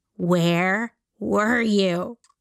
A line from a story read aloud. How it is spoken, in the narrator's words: Beta stops like inches from his face and says